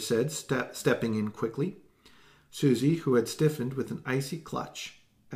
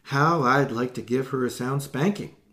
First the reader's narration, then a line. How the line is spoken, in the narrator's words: Allegra exclaimed